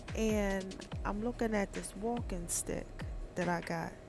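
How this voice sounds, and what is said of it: Sultry, seductive voice. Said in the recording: “gotta put on my sexy voice”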